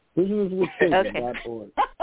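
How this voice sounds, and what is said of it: Announcer-style radio voice. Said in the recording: “that was my radio voice ... radio voice,”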